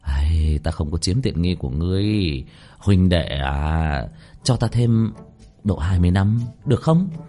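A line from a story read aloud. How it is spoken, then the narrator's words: Sighing. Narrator (Vietnamese): Bạch Thu Nhiên thở dài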